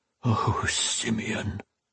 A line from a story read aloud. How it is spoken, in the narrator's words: he moaned, his voice so low that Alesh could barely make out the words